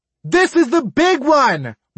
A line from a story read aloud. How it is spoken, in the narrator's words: my mother screamed